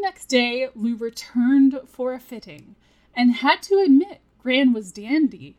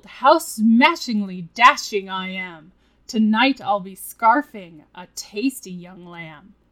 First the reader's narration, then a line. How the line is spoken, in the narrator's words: He chuckled